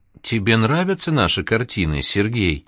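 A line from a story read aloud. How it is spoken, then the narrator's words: Pleasant, heartfelt voice. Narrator (Russian): приятным проникновенным голосом спросила она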